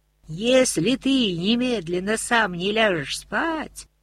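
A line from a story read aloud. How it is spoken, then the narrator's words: Wailing in a strange voice. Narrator (Russian): не своим голосом завопил Матис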